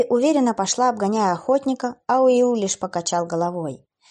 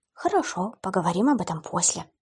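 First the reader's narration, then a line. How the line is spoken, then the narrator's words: Whisper under breath. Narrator (Russian): прошептала она себе под нос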